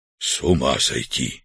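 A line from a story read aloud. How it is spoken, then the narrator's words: Whispered. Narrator (Russian): прошептал Артур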